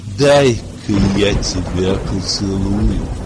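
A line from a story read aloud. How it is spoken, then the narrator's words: Tender, young woman. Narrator (Russian): нежно сказала девица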